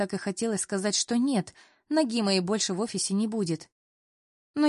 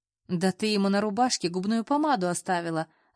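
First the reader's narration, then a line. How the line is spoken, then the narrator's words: Laughing loudly. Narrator (Russian): захохотала Лиза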